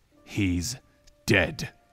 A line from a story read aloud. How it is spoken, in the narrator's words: he said fiercely